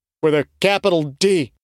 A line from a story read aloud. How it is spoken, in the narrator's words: Cutter said, his voice full of panic bordering on insanity